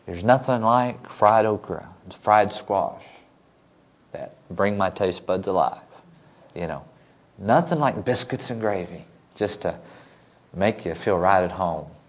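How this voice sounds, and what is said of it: Non-local regional accent. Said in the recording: “as you can tell, I'm not from southern New Hampshire. I haven't lost my accent yet”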